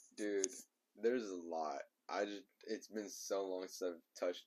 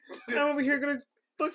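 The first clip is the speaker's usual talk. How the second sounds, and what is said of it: Kermit the Frog character voice. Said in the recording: “I did Kermit the Frog ... Do Kermit.”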